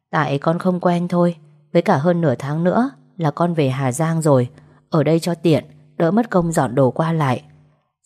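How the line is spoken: Faint smile. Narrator (Vietnamese): Tôi mỉm cười rất nhạt

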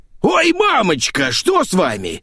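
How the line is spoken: Displeased sigh, then yell. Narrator (Russian): Недовольно вздохнула Ленка … заорала

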